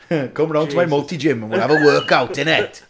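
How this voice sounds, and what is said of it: Convincing put-on Welsh accent. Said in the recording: “You've got quite a good Welsh accent, actually.”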